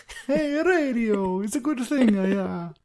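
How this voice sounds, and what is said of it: Put-on Italian accent. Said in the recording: “He sounded like Mario ... my Italian accent”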